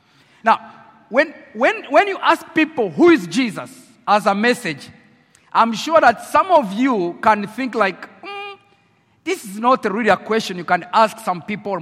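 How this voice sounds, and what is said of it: French accent speaking English. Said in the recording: “with my French accent in English, you know I speak French, English is my 4th language, so I try English in my French accent.”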